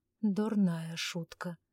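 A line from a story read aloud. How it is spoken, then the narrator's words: Muttering. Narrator (Russian): пробормотал Ивар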